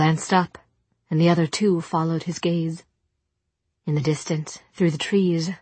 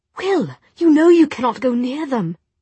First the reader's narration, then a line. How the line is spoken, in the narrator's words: Jem said desperately